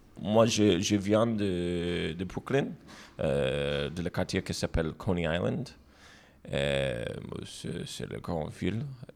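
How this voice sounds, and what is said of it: American accent speaking French. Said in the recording (French): “je suis aussi immigrant américain, c'est ça mon accent.”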